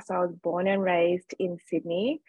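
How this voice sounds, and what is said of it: Australian accent. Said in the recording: “as you can probably hear from my accent, I'm from Australia.”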